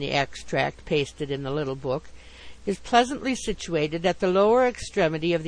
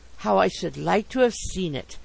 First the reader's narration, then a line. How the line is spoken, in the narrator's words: I murmured to myself